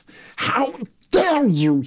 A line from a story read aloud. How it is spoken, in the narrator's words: he sputters